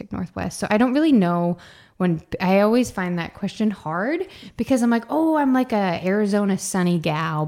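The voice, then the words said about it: American accent. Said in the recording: “I mean, obviously I'm from the States. Hence the accent”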